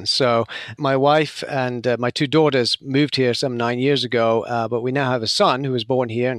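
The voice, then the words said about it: British English accent. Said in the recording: “from your accent, you're not originally from America, and I know you're from the UK”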